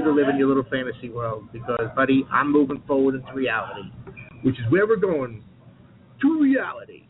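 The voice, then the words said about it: Voice not yet back to normal. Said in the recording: “still getting over the infection, but I should have my radio voice in another week or so”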